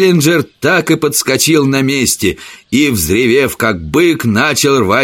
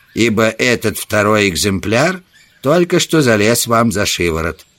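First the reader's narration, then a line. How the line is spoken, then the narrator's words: Gloomy. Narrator (Russian): мрачно проговорил Саммерли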